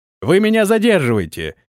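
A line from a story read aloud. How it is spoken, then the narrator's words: Shouted after. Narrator (Russian): крикнул ему вслед Антон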